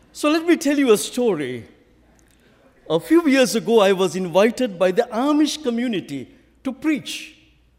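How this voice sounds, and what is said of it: Speaks with a noticeable accent. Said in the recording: “you would have noticed that I have an accent”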